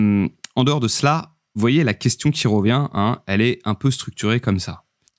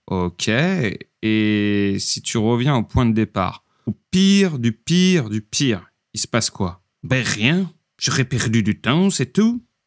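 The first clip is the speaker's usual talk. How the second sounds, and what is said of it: Put-on Belgian French accent. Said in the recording (French): “mes talents euh, d'imitateur en accent belge”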